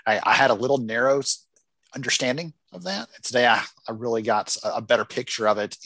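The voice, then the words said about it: Southern American accent. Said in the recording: “your beautiful Southern accent, because it is wonderful”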